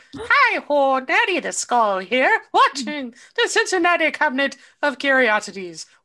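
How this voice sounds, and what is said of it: Put-on Irish accent. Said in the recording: “Why do I have an Irish accent? I don't know.”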